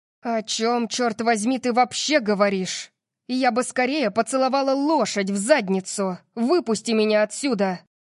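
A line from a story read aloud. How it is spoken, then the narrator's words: Snapping. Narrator (Russian): Огрызнулась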